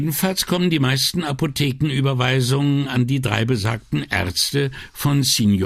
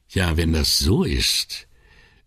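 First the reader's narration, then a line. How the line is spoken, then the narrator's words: Sighing. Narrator (German): seufzend revidierte Brunetti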